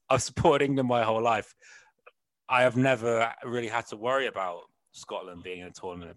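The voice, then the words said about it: West Country English accent. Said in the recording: “this awful West Country accent”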